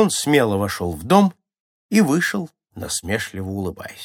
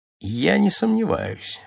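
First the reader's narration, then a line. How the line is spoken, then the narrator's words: Dry mocking reply. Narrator (Russian): ответил сухо насмешник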